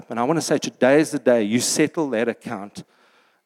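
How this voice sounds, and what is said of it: Commanding, authoritative voice. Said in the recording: “in a command voice”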